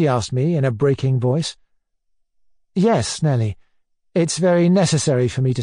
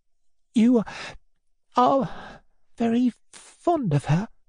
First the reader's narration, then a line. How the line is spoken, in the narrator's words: She asked again, in a faint voice